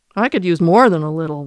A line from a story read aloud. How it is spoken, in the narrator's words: Walter said with a chuckle